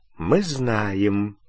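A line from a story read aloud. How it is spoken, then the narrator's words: Quiet words. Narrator (Russian): негромко произнес мистер Уизли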